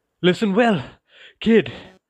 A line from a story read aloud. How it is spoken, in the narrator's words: said, panting from the effort